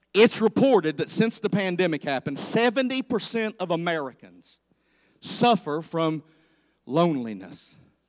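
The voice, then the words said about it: Speaks with a noticeable accent. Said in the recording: “my accent sometimes gets in the way of my statistics”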